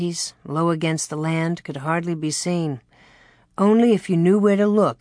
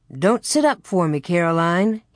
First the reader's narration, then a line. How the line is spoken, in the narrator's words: he said cheerfully